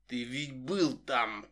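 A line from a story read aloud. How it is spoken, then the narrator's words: Hissed. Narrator (Russian): прошипел он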